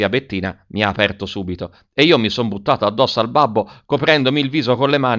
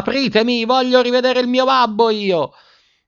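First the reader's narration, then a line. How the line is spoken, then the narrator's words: Screaming at full voice. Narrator (Italian): urlando a squarciagola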